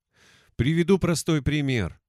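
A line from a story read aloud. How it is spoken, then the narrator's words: Sighing. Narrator (Russian): вздохнул чародей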